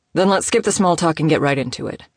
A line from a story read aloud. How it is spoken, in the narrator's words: Mikkel grunted